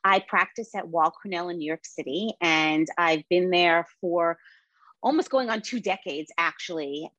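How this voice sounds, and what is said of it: Brooklyn New York accent. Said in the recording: “I am a born and bred New Yorker, and the accent that you hear is actually Brooklyn”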